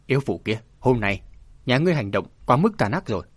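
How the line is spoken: Loud shout. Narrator (Vietnamese): Đàm Thu Sơn quát to

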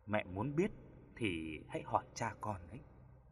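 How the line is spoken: Gentle reply. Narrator (Vietnamese): Hứa Tiểu Lan nhẹ nhàng đáp lại

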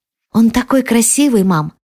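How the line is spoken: Whispered. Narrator (Russian): прошептала Анни

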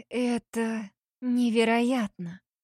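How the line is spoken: Breathless exclamation. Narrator (Russian): выдохнула Ангелина

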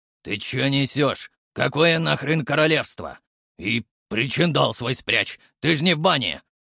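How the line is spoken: Rude fire spirit. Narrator (Russian): Довольно грубо прокомментировал огненный дух

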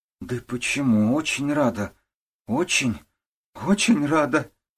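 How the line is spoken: Sob. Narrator (Russian): всхлипнула Татьяна

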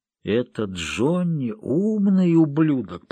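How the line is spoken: Muttered. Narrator (Russian): пробормотал Серджио

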